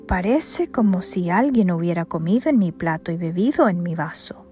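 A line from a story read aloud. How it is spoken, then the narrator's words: Sudden exclamation. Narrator (Spanish): De pronto, uno de ellos exclamó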